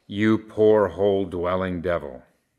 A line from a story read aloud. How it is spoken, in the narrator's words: The master called out in a loud voice